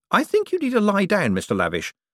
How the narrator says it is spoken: said Moist cheerfully

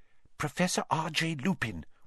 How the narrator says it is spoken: whispered Hermione at once

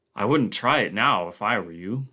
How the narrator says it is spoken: Barclay grunted

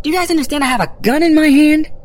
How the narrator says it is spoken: I shouted now, no longer trying to be quiet

